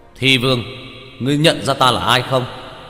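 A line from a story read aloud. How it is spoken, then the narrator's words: Raised voice from afar. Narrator (Vietnamese): Lâm Tam Sinh cách xa mấy chục mét cao giọng hướng Doanh Câu nói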